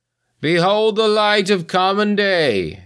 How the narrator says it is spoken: the old man in white cried out, triumphant

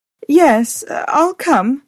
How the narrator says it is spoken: said in a faltering voice

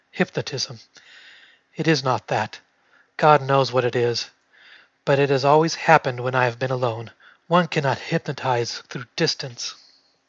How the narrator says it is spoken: her murmur in a weary, troubled voice

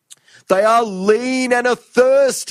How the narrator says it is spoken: he shrieked

